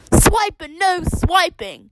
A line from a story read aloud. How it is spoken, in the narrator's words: shout